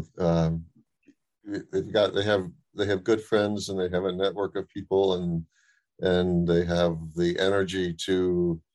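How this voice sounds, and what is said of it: Voice altered, sounds unwell. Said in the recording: “sorry about my voice. I'm recovering from some kind of respiratory stuff ... the voice is a little different”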